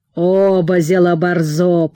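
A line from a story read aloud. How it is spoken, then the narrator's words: Grumble. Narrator (Russian): пробурчал отец Ипат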